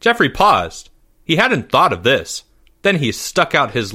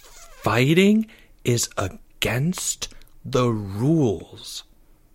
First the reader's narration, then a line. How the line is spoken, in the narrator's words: said Charlie slowly